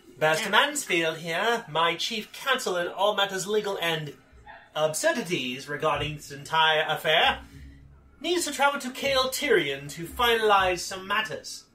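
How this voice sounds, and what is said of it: High-pitched Mid-Atlantic accent. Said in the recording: “in a high voice. What do they call it? What's that accent called? ... Mid-Atlantic”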